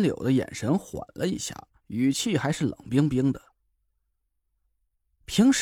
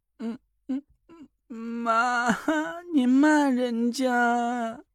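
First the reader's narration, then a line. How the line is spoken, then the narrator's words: Pouting, crying. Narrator (Chinese): 延安嘴一撇，哭了起来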